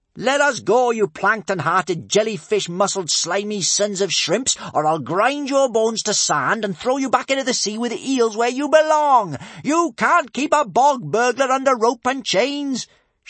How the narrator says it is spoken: shouted Kamikaze

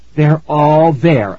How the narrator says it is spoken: I said happily

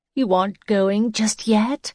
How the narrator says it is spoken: She laughed

